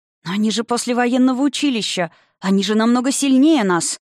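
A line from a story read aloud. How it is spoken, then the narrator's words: Frightened indignant exclamation. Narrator (Russian): воскликнула она, пораженная столь явной несправедливостью, однако при этом в голосе ее было гораздо больше испуга, чем возмущения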